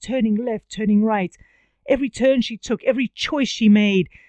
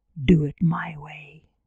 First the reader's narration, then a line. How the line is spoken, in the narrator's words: whispered